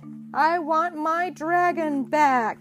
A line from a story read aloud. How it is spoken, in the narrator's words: cried